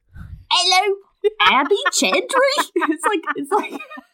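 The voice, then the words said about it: Street urchin character accent. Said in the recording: “this maidservant with a street urchin accent”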